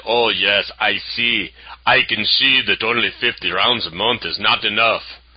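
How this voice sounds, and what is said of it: Weak put-on Austrian accent. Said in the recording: “I don't do a very good Austrian accent.”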